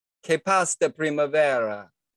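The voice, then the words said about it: Mock Italian accent speaking Spanish. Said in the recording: “This is my impersonation of an Italian person speaking Spanish.”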